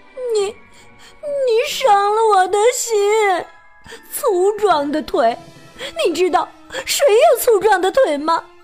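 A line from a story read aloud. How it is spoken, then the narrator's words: Crying. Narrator (Chinese): 他会哭着说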